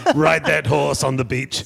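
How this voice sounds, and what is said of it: Imitates another person's voice. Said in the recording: “My Arnold Schwarzenegger impersonation sounds like Tom Waits more than it sounds like Arnold Schwarzenegger.”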